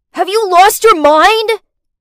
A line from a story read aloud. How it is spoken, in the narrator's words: he shouted